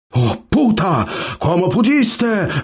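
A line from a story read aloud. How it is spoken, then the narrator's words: Roaring young man. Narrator (Russian): взревел парень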